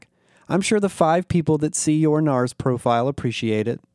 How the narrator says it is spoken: Flynn laughed

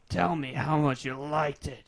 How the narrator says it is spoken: Ethan growled, lips inches from the tweak's ear

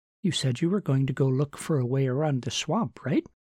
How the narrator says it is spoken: She added brightly

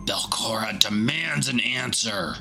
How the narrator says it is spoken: Yerevian sneers

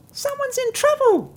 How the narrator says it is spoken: squeaked the mouse

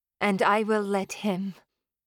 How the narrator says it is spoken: I purred

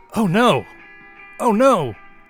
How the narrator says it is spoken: the announcer exclaiming in Spanish

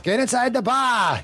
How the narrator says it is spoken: shouts

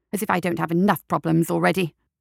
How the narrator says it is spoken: the doctor muttered

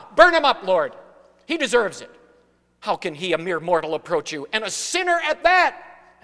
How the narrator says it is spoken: shouting out at God

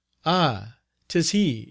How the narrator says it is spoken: she cried

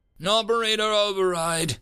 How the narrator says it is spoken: he grunted

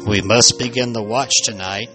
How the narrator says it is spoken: Robert said in a low voice

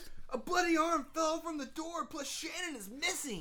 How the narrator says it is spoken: shouted Sean

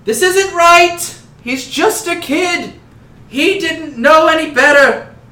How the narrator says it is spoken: someone in the crowd yells

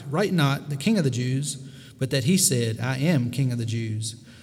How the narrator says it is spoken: Pilate answered

